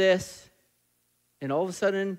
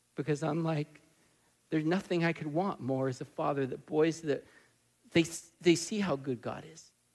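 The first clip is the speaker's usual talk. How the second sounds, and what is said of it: Emotional, choked-up voice. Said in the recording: “I'm just getting emotional.”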